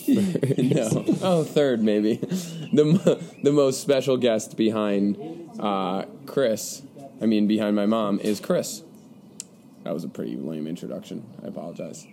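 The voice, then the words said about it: Congested, slightly sick voice. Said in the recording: “I'm a little sick right now. You'll hear it in my voice. A little congested.”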